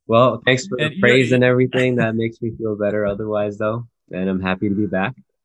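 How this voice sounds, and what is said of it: Unwell, rough-sounding voice. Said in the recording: “you're feeling a little under the weather ... apologies if I sound trash”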